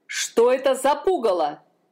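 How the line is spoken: King shouting. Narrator (Russian): закричал король

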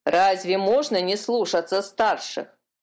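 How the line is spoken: Grumbling. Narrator (Russian): проворчала серая чайка

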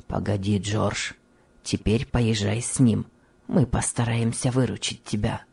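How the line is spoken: Kind, low voice. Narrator (Russian): добрый фабрикант проговорил вполголоса

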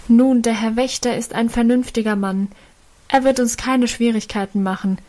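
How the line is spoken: Calling out. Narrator (German): rief einer von ihnen dem Vater entgegen

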